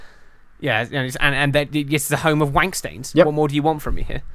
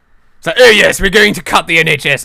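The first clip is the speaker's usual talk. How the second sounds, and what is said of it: Posh Tory voice, Boris Johnson impression. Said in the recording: “The way that Tories talk... that's... Boris... Eton.”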